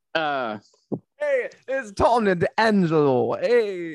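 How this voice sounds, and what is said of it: Fake put-on accent. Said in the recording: “fake-ass accent”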